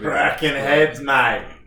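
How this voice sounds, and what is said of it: Mock Australian accent. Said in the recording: “a really bad Australian accent ... Oh, terrible ... That was too good. It was way worse than that ... the accent's way worse than”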